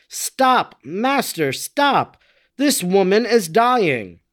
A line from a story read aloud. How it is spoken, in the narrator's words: some persons near her cried out